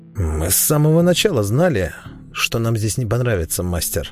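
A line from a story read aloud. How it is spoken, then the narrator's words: Ironic snort. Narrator (Russian): иронически хмыкнул в ответ Вимс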